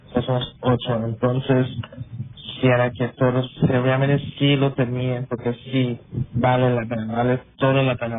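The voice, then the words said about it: Belizean accent in Spanish. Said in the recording (Spanish): “tienes un acento beliceño”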